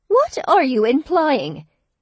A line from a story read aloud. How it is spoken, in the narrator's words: Her voice rose, cutting through the cheerful babble of the busy cafe